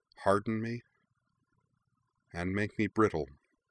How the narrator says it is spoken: Azula murmured

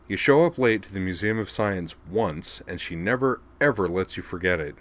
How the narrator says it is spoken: he said

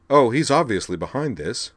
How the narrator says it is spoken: said Azalin

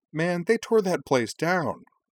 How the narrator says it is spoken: Cora exclaimed

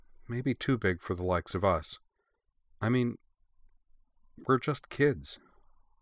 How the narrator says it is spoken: looking downcast, she added quietly

